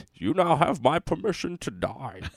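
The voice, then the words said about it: Impression of Bane. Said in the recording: “Bane ... do your impression ... Bane sounded a little Paul Harvey-like”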